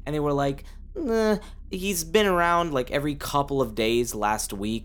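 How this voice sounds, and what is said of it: Imitates another person's voice. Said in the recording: “that was a really good impression of Wendy ... she sounds just like that”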